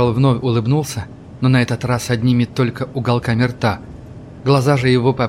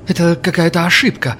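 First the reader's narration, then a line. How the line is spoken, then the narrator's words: Frightened. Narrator (Russian): произнес он испуганно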